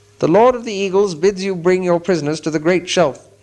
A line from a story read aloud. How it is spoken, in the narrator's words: he cried